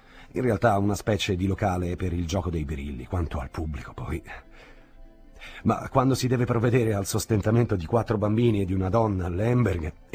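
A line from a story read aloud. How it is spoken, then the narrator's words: Subdued laugh. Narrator (Italian): rise di nuovo, non più così allegramente come proprio prima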